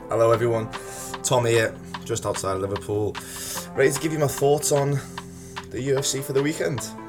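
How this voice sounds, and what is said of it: Northwest English accent, near-Scouse. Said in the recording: “It's a Northwest accent, is what it is. I can't say it's a Scouse accent because I'm not actually from Liverpool ... We're going to need subtitles.”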